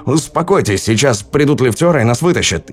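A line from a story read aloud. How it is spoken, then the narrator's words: Shouting. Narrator (Russian): выкрикнул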